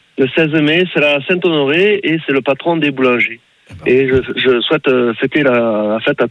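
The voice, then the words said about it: Regional French accent. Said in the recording (French): “ça fait plaisir déjà d'entendre votre accent”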